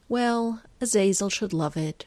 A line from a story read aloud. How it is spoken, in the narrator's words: she sighs